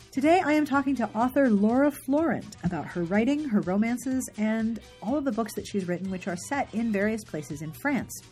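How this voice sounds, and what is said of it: Voice affected by a cold. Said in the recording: “I have a cold. I'm at the end of a cold, so hopefully this intro won't be too difficult to listen to.”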